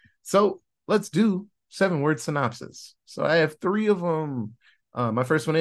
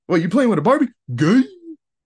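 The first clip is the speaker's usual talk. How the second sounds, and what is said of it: Mock alpha male voice. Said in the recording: “my alpha male impression”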